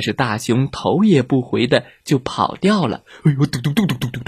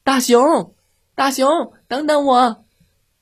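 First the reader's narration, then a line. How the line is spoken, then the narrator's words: Shouting. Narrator (Chinese): 小狐狸大喊道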